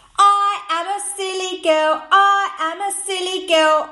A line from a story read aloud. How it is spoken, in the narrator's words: shouted loudly